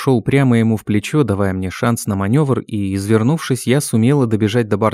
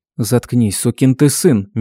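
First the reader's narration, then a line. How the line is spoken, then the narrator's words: Through clenched teeth. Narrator (Russian): процедила я сквозь зубы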